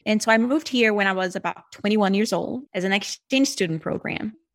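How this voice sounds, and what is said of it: Brazilian accent in English. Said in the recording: “I'm originally Brazilian. ... People hear the accent. That's where it's coming from.”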